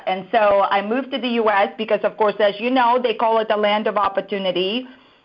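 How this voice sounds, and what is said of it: Russian accent. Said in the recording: “my accent, I am originally from Russia.”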